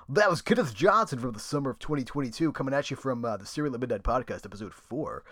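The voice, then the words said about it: Announcer-style radio voice. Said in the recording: “I feel myself slipping into radio voice ... It's hard not to do the voice.”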